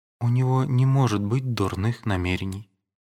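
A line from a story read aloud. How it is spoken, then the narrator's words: Weak voice. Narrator (Russian): отвечала она слабым голосом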